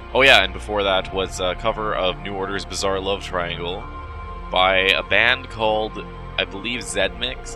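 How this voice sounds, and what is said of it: Sick, strained voice. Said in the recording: “I'm kind of sick. That's why my voice is all screwed up.”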